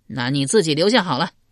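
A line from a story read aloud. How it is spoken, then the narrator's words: Angry. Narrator (Chinese): 发怒道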